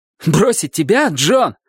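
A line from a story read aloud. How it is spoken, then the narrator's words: Exclamation. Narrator (Russian): воскликнул он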